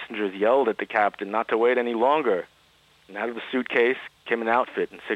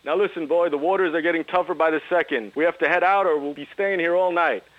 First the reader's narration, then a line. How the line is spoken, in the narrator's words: The captain yelled back